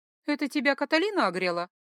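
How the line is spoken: Laughing question. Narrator (Russian): Сквозь смех спросила у Ральфа

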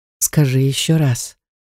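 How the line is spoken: Hoarse rasp near ear. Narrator (Russian): прохрипел он над ухом

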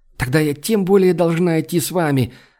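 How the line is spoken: Exclamation. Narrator (Russian): воскликнула Айлани

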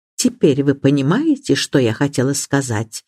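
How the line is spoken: Quiet. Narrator (Russian): негромко проговорила миссис Бантри

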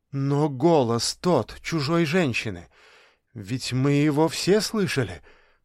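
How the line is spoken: Almost pleading. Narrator (Russian): почти взмолилась Аннушка

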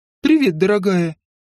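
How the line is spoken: Casual exclamation. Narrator (Russian): как ни в чем не бывало воскликнул Дариан

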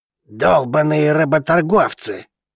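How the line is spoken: Grumble. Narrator (Russian): проворчал хазаанец

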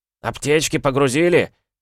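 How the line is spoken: Officers shouting. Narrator (Russian): Кричали тыловые офицеры

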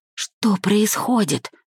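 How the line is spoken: Whisper. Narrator (Russian): шепнула я Зельде

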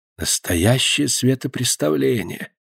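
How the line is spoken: Whispered. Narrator (Russian): прошептала госпожа Шанто

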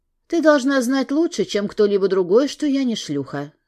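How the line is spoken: Calm statement. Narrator (Russian): спокойно сказала

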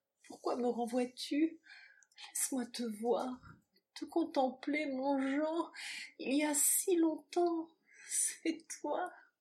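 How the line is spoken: Rapturous whispered sigh. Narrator (French): susurra-t-elle dans un soupir d'ineffable ivresse

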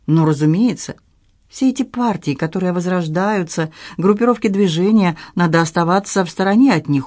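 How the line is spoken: Pleading. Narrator (Russian): умоляющим тоном произнес Люк

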